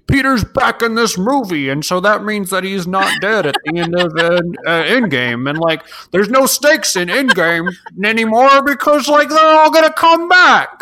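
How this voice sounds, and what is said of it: Imitates a stereotypical internet commenter. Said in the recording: “That's a great impersonation of every YouTube ... That's my the internet in 2019 impression”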